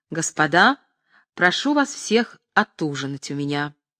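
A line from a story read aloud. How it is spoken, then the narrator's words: Serious, then loud. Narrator (Russian): отвечал серьезно Тавровский и, обращаясь ко всем, громко прибавил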